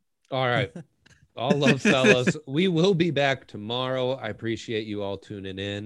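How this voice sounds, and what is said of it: Usual voice. Nothing is said of it.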